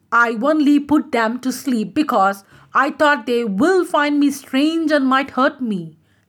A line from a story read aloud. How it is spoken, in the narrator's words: cried the tree